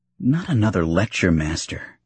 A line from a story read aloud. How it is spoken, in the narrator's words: Anakin said with a profound sigh